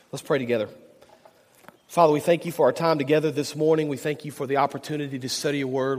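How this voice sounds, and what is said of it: Hoarse, failing voice with a cold. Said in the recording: “My voice is going, and I'm battling a cold”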